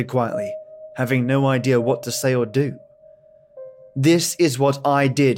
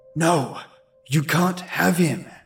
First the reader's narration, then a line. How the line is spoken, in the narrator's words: I whispered angrily